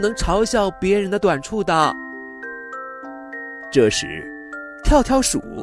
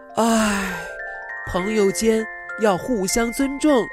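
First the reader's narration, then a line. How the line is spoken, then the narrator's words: Sighing. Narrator (Chinese): 小水獭叹了口气说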